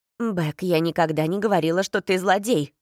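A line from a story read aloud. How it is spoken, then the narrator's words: Irritated exhale, mother. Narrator (Russian): раздраженно выдохнула его мать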